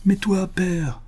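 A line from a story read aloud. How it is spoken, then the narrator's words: Exclamation. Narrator (French): s'écria Suzanne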